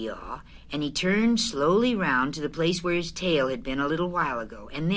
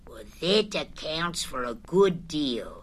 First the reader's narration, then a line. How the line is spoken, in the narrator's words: said Eeyore gloomily